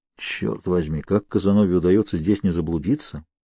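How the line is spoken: Muttering. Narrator (Russian): пробормотал я

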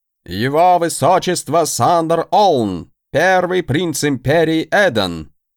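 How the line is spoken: Loud announcement. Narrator (Russian): громко сообщил

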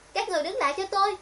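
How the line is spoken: Strained desperate shout. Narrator (Vietnamese): Diệp Hạ Lam ngã xuống đất chạy chân chạy tay, nhưng cô vẫn gượng đứng dậy hét lên

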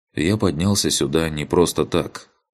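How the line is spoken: Quiet speech. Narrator (Russian): он негромко произнес

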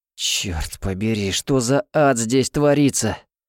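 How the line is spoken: Groaning through clenched teeth. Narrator (Russian): простонал Тофлер сквозь стиснутые зубы

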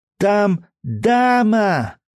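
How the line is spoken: Shouting. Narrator (Russian): кричала она

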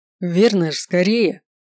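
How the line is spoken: Irritated hurrying. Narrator (Russian): раздраженно поторопил я водителя

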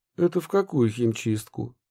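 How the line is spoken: Plain. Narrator (Russian): спросила Ксения

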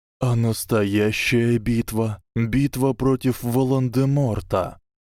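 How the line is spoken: Trembling old man's question. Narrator (Russian): дрожащим голосом спросил старый волшебник

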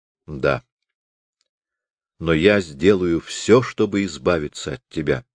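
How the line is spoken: Calm, detached. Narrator (Russian): проговорил он спокойно, словно речь шла не о них самих, а о каких-то посторонних людях

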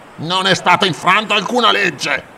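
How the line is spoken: Growled. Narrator (Italian): ringhiò

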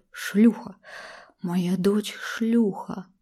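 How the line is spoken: Cracking hoarse hiss. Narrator (Russian): Наконец зашипел он все тем же срывающимся хриплым голосом

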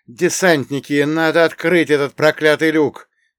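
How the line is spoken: Academic nearly shouting. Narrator (Russian): почти прокричал академик Лунев

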